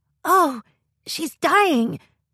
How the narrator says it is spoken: Esther cried

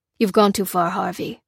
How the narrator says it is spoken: said Adrian, grimly

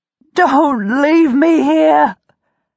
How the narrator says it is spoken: wail, overwhelmed by a sudden bleak stab of horror

